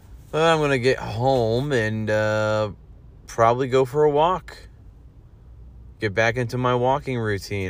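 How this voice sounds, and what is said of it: Worn-out, hoarse voice. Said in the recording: “my voice is, man, I got no voice ... My voice is gone. It's trashed.”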